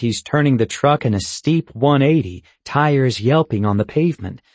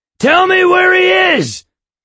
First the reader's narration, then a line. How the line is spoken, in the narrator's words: he shouts at the phone